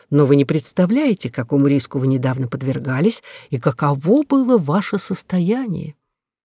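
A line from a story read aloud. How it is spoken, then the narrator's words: Doctor speaking softly. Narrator (Russian): мягко произнес врач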